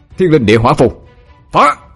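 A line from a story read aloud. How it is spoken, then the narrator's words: Shouted incantation. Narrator (Vietnamese): Quân quát lên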